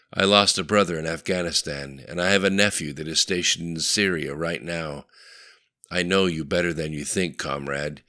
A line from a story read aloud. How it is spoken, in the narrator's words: he said with the quiet rumble one learns working in the smelly bowels of the former Soviet juggernaut